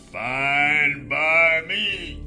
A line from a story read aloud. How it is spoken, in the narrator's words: Brock growled